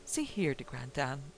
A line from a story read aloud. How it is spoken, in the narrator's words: I began testily